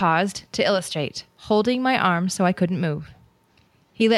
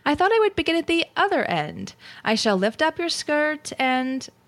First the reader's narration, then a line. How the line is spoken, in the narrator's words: went on cheerfully